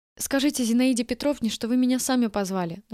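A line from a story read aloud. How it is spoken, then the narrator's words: Rapid chatter. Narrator (Russian): начала тараторить я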